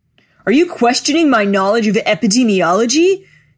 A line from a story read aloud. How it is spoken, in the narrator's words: shouted